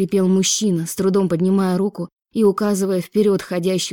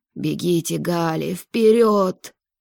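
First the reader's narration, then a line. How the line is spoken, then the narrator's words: Spat out. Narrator (Russian): Выплюнул он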